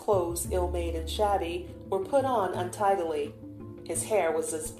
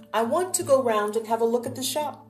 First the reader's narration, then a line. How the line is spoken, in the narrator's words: answered cheerfully